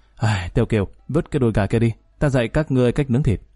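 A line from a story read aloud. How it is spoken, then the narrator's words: Sighing. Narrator (Vietnamese): Lý Kỳ thở dài một tiếng nói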